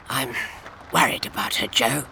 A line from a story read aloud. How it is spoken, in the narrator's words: he whispered